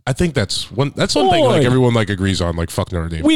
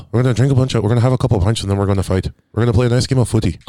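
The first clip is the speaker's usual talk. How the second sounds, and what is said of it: Put-on Irish accent. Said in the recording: “how do you do an Irish accent?”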